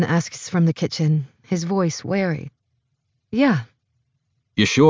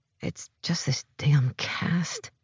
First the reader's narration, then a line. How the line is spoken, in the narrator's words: I mumble